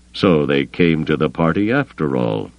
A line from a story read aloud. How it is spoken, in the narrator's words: he murmured